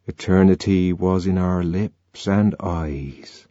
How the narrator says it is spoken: murmured

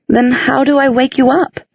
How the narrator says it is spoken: Clary cried

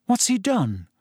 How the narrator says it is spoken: said Harry nervously

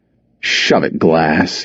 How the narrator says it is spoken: he growled

